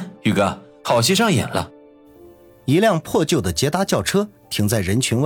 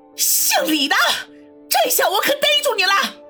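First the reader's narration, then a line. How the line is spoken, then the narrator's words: Woman shouting. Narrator (Chinese): 一个女人……大喊道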